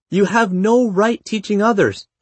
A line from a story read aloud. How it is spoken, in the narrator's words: he shouted